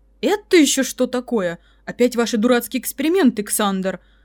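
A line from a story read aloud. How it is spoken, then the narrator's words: Thundering voice from behind. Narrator (Russian): прогремело за спиной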